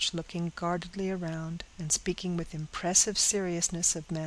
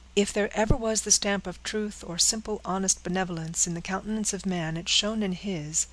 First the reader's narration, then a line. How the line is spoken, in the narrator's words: said Henry